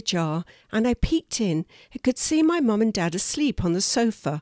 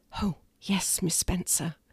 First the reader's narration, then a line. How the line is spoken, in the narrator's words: Chloe whispered